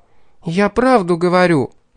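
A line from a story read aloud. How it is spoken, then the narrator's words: Almost exclaiming. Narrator (Russian): Едва ли не воскликнула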